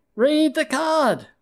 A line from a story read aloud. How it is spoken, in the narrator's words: we shouted